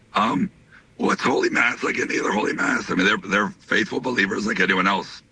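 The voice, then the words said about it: Hoarse voice. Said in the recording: “my voice is hoarse.”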